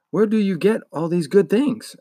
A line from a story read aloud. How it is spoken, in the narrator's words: asked